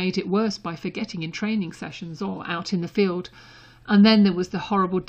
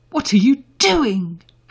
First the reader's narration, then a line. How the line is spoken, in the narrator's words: Harry said, appalled